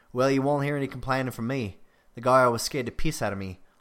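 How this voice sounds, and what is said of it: Put-on Australian accent. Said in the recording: “I'm actually going to read a paragraph of Graham's dialogue in my best Australian accent. And if there's any Australians listening, I heartily apologize for what you're about to hear.”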